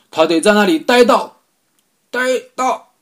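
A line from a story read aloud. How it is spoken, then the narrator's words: Shout. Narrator (Chinese): 他喊道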